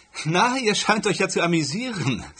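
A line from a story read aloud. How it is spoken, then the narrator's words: Laughing. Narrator (German): sagte sie lachend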